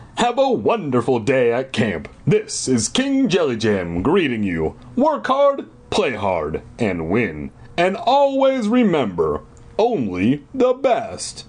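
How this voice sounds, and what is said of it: Cheerful booming deep voice. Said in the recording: “Boomed a cheerful, deep voice.”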